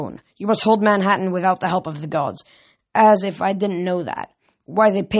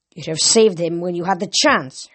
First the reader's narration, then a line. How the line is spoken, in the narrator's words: Hermes growled at Annabeth